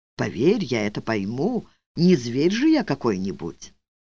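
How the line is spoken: Pointedly tender insistence. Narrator (Russian): вслух настаивал подчеркнуто нежно

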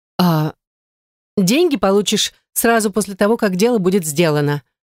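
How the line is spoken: Snapping retort. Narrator (Russian): огрызнулась Ирина

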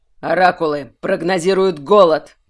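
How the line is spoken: Barking. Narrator (Russian): рявкнул Тверен

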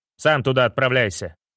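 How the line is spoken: Snapped, uncle. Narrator (Russian): огрызнулся дядька

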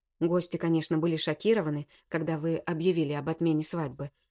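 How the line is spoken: Plain. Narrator (Russian): говорит Роман

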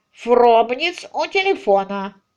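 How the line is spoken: Nasal, after pause. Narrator (Russian): После приличествующей паузы он прогнусавил

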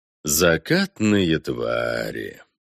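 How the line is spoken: Mildly tender mutter. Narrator (Russian): С умеренной нежностью пробормотал проимператор

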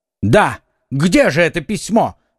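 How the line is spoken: Shouting. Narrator (Russian): закричал Д'Артаньян

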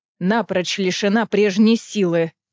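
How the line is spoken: Growl. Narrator (Russian): прорычала Амрена

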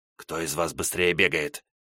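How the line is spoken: Hissing. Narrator (Russian): зашипел на них

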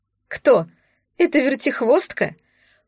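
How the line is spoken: Snorting maid. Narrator (Russian): фыркнула служанка

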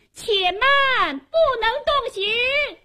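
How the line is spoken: Woman's loud shout. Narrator (Chinese): 有个女子高声喊道

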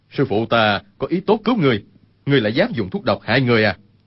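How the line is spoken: Uncontrolled anger. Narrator (Vietnamese): Bốn đệ tử tức giận không kìm được, nói

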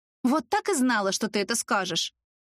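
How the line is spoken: Snorting. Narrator (Russian): фыркнула Ульяшка

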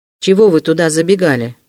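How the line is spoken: Stern. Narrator (Russian): строго спросил Вельчининов

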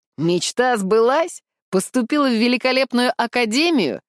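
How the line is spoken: Suppressed laughter. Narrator (Russian): Она силится не расхохотаться

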